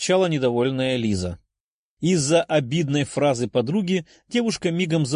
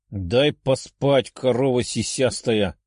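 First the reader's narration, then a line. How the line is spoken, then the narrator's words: Angry growl. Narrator (Russian): злобно прорычала рядом лежащая краснокожая девушка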